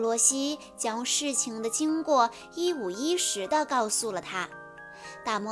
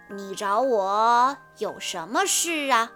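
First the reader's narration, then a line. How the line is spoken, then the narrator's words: Slow question. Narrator (Chinese): 他慢慢地问道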